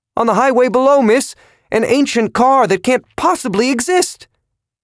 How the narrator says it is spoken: Its voice was screechy with pain as it exclaimed to Kathy

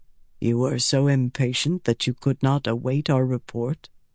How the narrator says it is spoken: Ruark asked softly

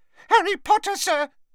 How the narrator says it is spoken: squeaked Dobby

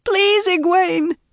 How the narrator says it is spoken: It was a squeal, and she was too terrified

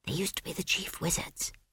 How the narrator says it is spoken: whispered Esk

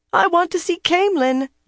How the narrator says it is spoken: Jancy squeaked, though she was still trembling

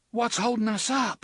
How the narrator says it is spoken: Susanna cried

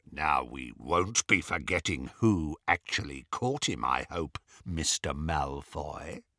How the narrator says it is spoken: said Greyback menacingly

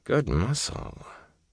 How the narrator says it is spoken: murmuring

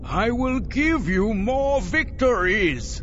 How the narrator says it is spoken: Savang La cried

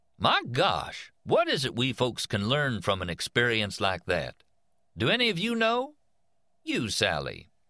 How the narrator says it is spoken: it was telling them in an affable, informal voice

